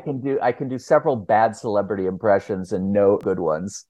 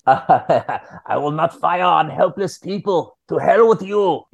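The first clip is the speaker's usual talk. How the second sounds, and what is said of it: Bad Arnold Schwarzenegger impression. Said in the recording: “Oh, Arnie. ... That's my terrible Arnold.”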